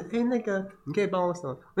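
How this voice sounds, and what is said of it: Quiet, shy soft-spoken voice. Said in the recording (Chinese): “他就是比较害羞的人……他讲话也很小声”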